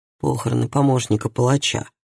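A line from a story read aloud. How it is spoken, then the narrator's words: Mutter. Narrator (Russian): пробормотал Таральд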